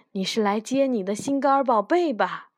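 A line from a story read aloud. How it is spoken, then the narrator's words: Witch calling out. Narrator (Chinese): 女巫叫道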